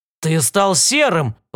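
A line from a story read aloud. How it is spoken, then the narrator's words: Exclamation. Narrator (Russian): воскликнул Уильям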